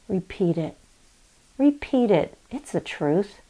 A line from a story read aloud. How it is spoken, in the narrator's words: he whispers still in this age